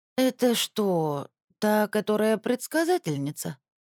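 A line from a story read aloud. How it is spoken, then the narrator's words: Sleepy mumble. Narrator (Russian): сонно пробормотало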